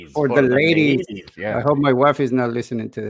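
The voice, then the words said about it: Latin American accent in English. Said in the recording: “my English is not perfect. But, you know, I got the Latin accent”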